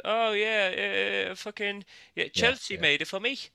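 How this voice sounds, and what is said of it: Poor Canadian accent, sounds Irish. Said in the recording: “I can't do a fucking Canadian accent ... all sounds Irish, no matter what he does. This all sounds Irish.”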